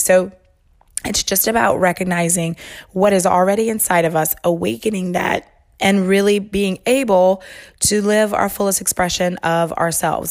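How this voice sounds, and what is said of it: Off, strained-sounding voice. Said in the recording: “sorry, my voice is like super wonky ... I think that my allergies are confused too”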